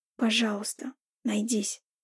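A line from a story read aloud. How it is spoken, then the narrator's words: Whisper holding back tears. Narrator (Russian): прошептала, чтобы сдержать слезы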